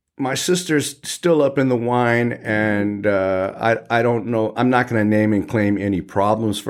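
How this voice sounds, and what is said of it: Usual voice. Nothing is said of it.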